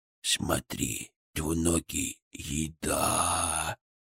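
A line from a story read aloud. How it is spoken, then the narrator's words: Drawn-out, drooling eagerness. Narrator (Russian): Чуть ли не пуская слюни, протянул Фырк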